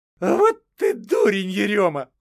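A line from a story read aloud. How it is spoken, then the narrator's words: Laughing. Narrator (Russian): Колотуша засмеялась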